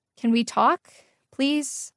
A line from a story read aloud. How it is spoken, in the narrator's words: said, my voice shaking slightly